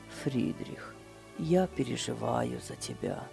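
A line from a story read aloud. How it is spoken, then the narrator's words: Quiet. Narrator (Russian): тихо сказал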